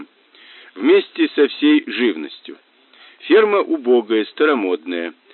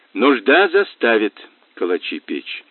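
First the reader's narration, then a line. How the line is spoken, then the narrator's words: Thoughtful, in Russian. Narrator (Russian): задумчиво сказал Мазур по-русски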